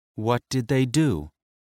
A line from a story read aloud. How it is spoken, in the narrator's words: It was Hecate who asked the question, her tone gentle